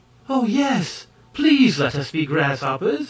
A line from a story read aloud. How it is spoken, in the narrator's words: exclaimed the High Ki maids in the same breath